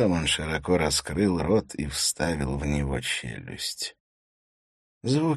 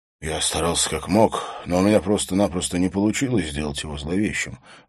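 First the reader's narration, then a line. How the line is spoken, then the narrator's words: Sighing. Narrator (Russian): вздохнул фотограф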